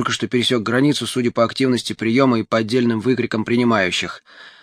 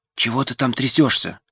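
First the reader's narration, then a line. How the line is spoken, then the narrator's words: Whisper. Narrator (Russian): прошептала она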